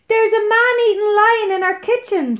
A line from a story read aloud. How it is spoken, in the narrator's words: shrieked